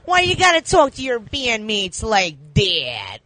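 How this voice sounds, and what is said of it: Poor impersonation of a cartoon character. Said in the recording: “my impersonation, terrible impersonation of Pickles”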